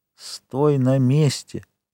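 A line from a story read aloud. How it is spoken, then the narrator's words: Whisper. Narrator (Russian): шепотом сказал ему Монте-Кристо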